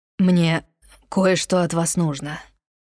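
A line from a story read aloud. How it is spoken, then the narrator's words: Low, husky voice. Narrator (Russian): произнес он низким, хрипловатым голосом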